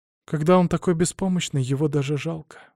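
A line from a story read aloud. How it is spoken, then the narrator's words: Sigh. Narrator (Russian): вздохнула Мария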